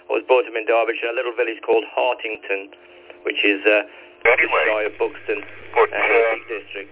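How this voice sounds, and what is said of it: English regional non-southern accent. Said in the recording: “You can probably tell from my accent, I haven't got a southern accent.”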